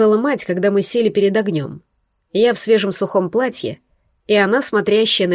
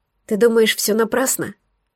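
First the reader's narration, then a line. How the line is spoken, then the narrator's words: Quiet question. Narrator (Russian): спросила у нее тихо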